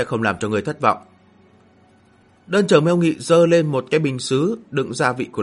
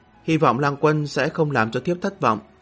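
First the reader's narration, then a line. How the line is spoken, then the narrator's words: Smiling woman. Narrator (Vietnamese): Nữ tử áo đỏ cười nói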